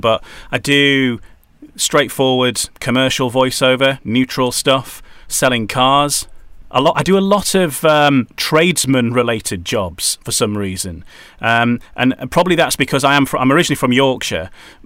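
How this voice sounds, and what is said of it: Neutral northern English accent. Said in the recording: “My natural accent, which is what I'm talking to you in now ... a neutral northern accent”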